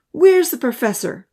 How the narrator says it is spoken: Odin called out

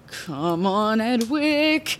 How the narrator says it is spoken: muttered

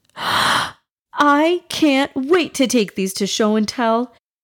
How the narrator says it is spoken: exclaimed in total excitement

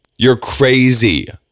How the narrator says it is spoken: Alondra yelled

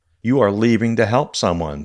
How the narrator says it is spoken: said the car

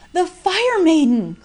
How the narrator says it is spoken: cried the superstitious men in terror

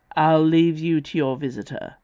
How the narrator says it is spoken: said, in a softer version of his growl

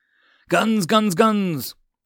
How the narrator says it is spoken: Gilagos yelled

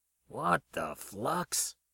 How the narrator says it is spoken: Max muttered to himself

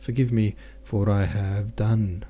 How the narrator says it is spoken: faltered Natasha in a scarcely audible broken whisper

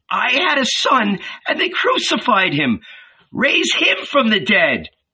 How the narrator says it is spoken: A tall, aristocratic old lady dressed all in black cried

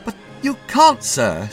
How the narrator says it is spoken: said the sergeant anxiously

